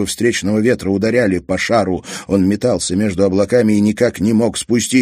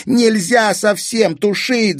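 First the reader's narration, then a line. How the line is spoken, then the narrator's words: Shouted. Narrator (Russian): закричал Казик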